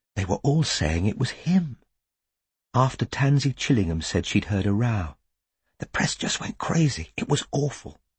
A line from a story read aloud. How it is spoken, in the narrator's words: she said, in a voice barely louder than a whisper